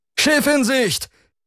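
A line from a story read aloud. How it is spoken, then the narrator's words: Sudden distant call. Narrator (German): rief plötzlich eine Stimme von der Morgenstern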